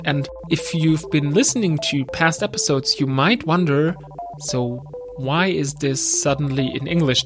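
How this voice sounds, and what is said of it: German accent in English. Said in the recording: “I'm from Germany, as you can tell by my accent.”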